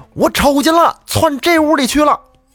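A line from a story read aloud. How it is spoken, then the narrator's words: Repeated shouting from outside. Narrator (Chinese): 外边有人跟那儿连声的叫喊，说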